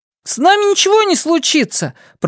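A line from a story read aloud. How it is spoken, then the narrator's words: Shouted reply. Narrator (Russian): прокричал в ответ Бенни Слайтман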